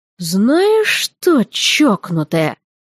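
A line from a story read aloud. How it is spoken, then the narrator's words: Through gritted teeth. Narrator (Russian): процедил Андыш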